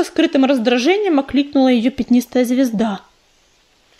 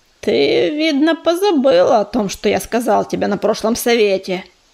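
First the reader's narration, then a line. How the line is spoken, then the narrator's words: Menacing hiss. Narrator (Russian): Угрожающе прошипел Коршун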